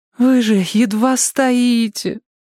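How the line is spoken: Pleading. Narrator (Russian): взмолилась она

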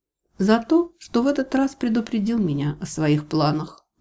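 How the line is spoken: Soft. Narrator (Russian): мягко ответила я

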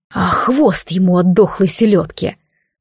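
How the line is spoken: Irritated, weary tone. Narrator (Russian): раздраженно от усталости сообщил Алистар

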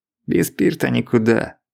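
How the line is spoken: Sighing. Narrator (Russian): вздохнул Евсеич

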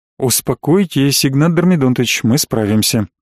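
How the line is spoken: Calm reassurance. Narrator (Russian): спокойно уверил меня следователь

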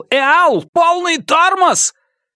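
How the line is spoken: Shout with regained voice. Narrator (Russian): к нему вернулся голос, и он крикнул

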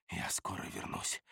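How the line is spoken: Whisper. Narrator (Russian): прошептал

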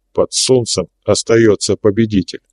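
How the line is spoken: Added very quietly. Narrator (Russian): добавил совсем тихо

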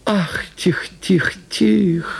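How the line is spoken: Whining peasant woman. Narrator (Russian): заскулила баба в платке

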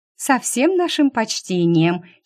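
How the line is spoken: Girl giggling. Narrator (Russian): хихикнула девица

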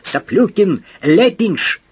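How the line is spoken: Frightened hysterical scream. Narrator (Russian): Евстратий Павлович испугался, не случилось ли с ним затмение рассудка, истерически закричал

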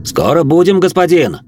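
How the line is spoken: Shout from coach box. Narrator (Russian): крикнул Живьен с козлов кареты

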